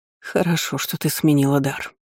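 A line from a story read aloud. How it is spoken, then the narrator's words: Trembling voice. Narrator (Russian): дрожащим голосом заметила родственница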